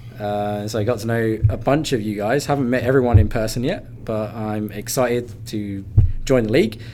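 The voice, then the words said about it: British accent. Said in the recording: “I have a British accent ... I gain in being British”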